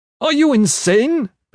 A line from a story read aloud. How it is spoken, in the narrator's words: Ben-Hadad shouted at Winston